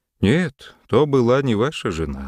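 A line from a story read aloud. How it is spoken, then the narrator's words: Sad. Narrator (Russian): ответил граф грустно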